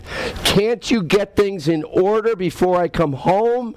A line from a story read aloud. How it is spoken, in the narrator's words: he yells at his wife